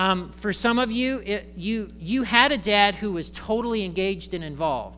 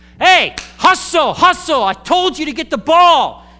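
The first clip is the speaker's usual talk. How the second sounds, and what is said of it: Yelling sideline dad voice. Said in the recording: “I didn't know you could yell like that. I'm a dad." All dads can yell. It's called the dad voice.”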